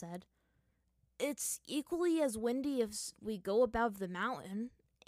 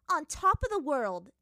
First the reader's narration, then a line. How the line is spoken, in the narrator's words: Azula said triumphantly